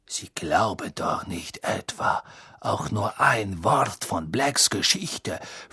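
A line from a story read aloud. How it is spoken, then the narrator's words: Whisper. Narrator (German): flüsterte Snape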